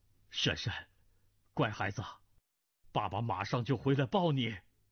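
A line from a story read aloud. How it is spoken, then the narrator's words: Wry, speaking to child. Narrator (Chinese): 左子木 啼笑皆非，向儿子道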